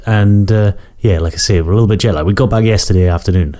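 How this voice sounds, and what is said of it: Croaky voice from a cold. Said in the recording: “that's why my voice is a little bit croaky”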